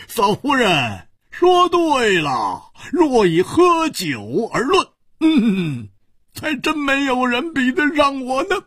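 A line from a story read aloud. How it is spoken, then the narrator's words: Hearty laughter. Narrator (Chinese): 胡铁花哈哈大笑说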